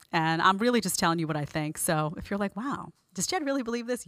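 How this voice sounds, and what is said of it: Brooklyn accent. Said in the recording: “If you hear a Brooklyn accent, it's because I'm from Brooklyn.”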